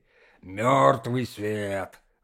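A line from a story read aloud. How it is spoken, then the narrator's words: Grumbling. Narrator (Russian): ворчал он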